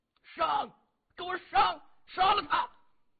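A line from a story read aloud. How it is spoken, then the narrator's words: Enraged middle-aged man shouting. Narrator (Chinese): 那个开枪的中年人气得直咬牙呀，扯着脖子对周围的人大声喊着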